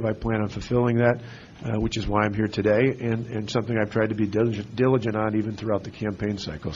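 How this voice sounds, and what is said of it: Hoarse, partly lost voice. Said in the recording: “my voice is a little bit gone”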